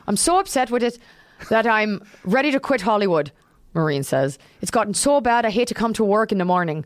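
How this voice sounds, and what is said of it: Put-on Irish accent imitating Maureen O'Hara. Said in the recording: “Can I read it in her Irish accent?”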